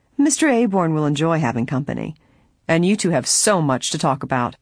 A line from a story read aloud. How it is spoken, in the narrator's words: he said sarcastically